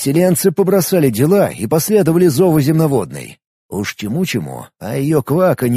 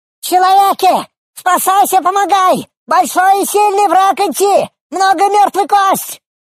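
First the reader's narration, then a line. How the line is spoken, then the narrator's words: Goblin shouting. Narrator (Russian): Закричал гоблин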